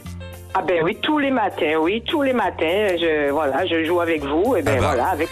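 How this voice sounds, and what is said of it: Slight Caribbean French accent. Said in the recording (French): “vous auriez pas un petit accent de Sainte-Anne”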